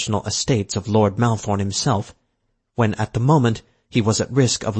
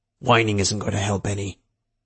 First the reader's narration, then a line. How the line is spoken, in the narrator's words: Barker growled back